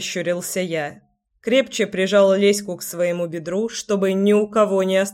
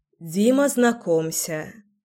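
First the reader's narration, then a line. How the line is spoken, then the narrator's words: Sighing. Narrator (Russian): вздохнула Леся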